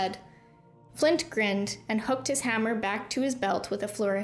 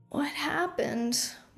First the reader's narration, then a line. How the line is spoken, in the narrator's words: one of the boys asked, rubbing his eyes wearily